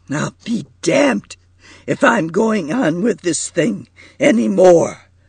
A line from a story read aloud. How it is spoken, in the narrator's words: cried Marquis thickly